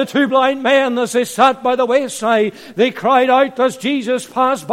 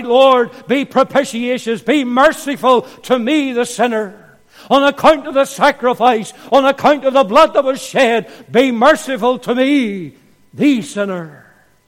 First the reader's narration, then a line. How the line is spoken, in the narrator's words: he cried